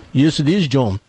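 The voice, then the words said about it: Weak put-on British accent. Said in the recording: “Is that your British accent the best you can do? ... that's my British accent”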